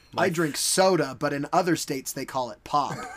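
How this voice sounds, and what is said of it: Put-on American accent. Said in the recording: “I'm doing an American accent.”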